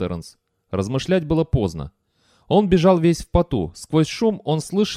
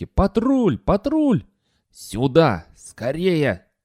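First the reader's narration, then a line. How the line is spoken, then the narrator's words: Creaky old man's voice. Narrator (Russian): проскрипел старик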